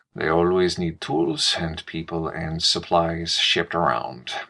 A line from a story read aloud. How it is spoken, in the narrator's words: Alejandro sighed